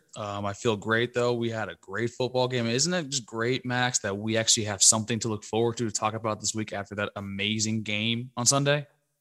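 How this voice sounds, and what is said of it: Slightly hoarse, recovering voice. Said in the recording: “My voice is slowly getting better.”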